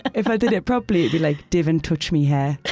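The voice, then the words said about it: Broad Geordie accent. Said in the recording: “If it was proper Geordie.”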